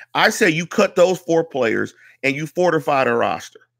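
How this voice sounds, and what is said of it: Pittsburgh accent. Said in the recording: “that's my Pittsburgh accent ... You know how I sound, 15233”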